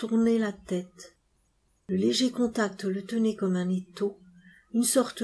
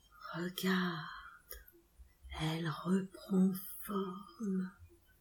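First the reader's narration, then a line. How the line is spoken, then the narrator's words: Murmuring. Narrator (French): murmura l'Organ Sahib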